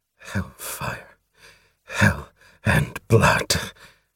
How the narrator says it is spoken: Through his teeth, he muttered to the fierce rhythm of his heart

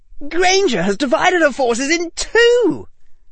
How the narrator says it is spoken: yelled Knott

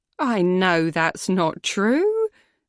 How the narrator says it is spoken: I said with a little laugh

